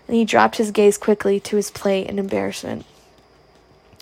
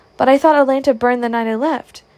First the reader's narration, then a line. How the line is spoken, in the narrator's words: cried Scarlett, bewildered